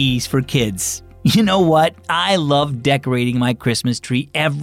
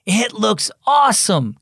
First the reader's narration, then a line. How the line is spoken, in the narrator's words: Cameron exclaimed